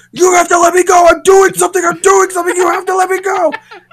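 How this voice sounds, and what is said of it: Screaming. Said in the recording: “he's screaming”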